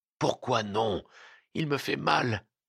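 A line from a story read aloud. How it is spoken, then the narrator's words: Murmur. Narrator (French): murmura-t-il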